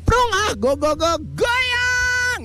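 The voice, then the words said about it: Shouting. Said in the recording (Indonesian): “teriak”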